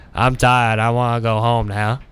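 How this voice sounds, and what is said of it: Forrest Gump-style accent. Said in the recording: “in like a Forrest Gump accent.”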